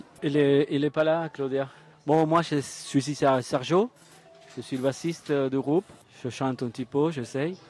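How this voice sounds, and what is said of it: Argentine accent speaking French. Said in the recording (French): “Je vois que vous avez un accent, vous venez d'où? ... Moi je viens de l'Argentine.”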